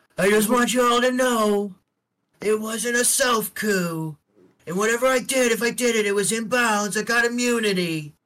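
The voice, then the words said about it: Donald Trump impression. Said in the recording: “I'm very proud of your impression. ... Trump”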